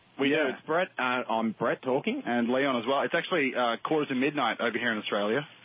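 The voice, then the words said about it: Australian accent. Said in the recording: “I love the accent, though. Great. We love the Australians.”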